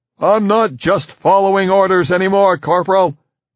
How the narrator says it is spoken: Bender yelled back

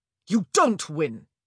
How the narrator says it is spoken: Antony snapped

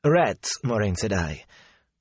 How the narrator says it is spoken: the innkeeper sighed

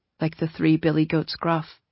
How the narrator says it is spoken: Wink said, softly

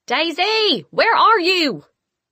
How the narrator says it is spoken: Mama shouted

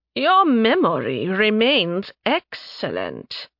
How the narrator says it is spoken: she purred

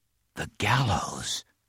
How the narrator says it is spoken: him whisper again

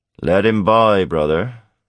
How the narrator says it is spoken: the pirate's growling voice

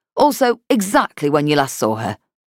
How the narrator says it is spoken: Turner added, rather curtly

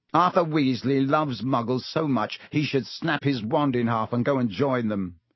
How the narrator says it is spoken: said Malfoy scornfully

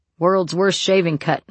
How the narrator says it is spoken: Mike said and laughed

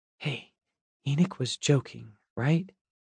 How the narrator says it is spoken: Nor whispered to me

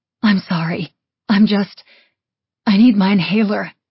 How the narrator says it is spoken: I wheezed

